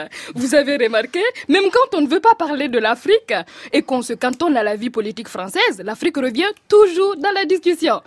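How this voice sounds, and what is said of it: Put-on African accent in French. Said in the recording (French): “Oh pardon, mon accent africain revient. ... il va falloir que je revoie ma formule de la pilule pour l'accent français”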